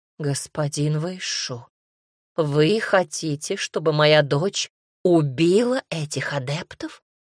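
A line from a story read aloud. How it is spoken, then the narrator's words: Horrified whisper. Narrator (Russian): в ужасе прошептала мама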